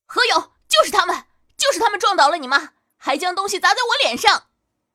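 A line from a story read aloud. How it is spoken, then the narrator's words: Shouting accusingly. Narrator (Chinese): 指着他们就喊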